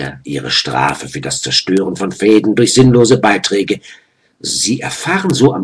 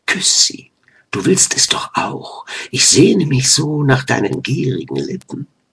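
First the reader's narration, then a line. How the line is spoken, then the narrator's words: Breathy whisper in ear. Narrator (German): hauchte ihnen ins Ohr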